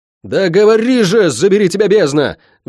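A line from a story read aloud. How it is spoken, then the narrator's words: Yelling at full voice. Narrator (Russian): во весь голос заорал я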